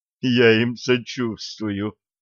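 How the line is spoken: Moaned. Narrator (Russian): простонал Денис

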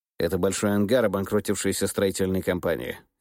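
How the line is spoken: Plain. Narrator (Russian): ответил голова

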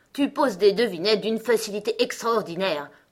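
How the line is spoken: Grunted. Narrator (French): grogna le gros coco

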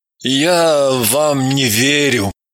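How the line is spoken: Dazed mumble. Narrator (Russian): Очнувшись же, промямлил

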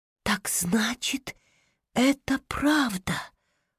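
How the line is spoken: Dejected whisper. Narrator (Russian): удрученно прошептала она

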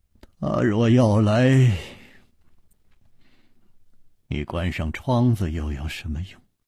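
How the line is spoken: Sighing. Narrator (Chinese): 楚留香又叹道

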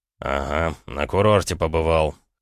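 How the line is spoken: Smirking snort. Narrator (Russian): хмыкнул Роман

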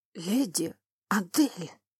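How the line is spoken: Wheezing, choking on blood. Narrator (Russian): Он захрипел, изо рта полилась кровь

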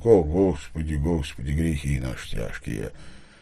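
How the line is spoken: Sleepy mumbling. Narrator (Russian): плотник пахом бормотал с просонок

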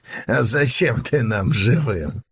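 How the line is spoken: Muffled laugh behind mask. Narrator (Russian): Глухо рассмеялся из-под маски разбойник

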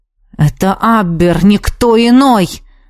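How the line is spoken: Hissed through teeth. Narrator (Russian): сквозь зубы прошипел магистр

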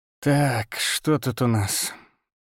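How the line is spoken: Hoarse voice. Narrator (Russian): сказал хрипло

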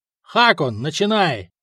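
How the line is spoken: Shouted. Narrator (Russian): крикнул Григорий

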